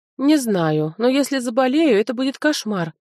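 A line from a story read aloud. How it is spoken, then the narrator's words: Groaning. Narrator (Russian): застонал он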